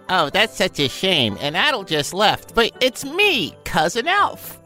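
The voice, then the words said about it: Put-on silly character voice. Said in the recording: “do this bullshit voice?”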